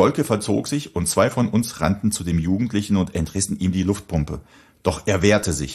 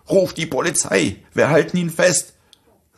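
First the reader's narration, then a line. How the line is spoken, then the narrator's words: Determined shout. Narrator (German): rief mir einer meiner Freunde entschlossen zu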